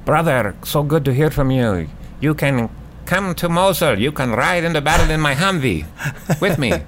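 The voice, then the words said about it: Imitates another person's accent. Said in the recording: “That was my General Abbas accent.”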